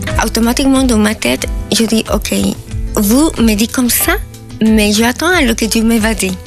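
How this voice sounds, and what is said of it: Sing-song Peruvian accent. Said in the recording (French): “l'accent chantant du Pérou”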